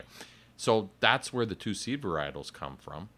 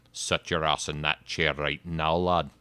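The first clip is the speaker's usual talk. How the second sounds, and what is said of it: Put-on Irish accent. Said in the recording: “The Irish accent.”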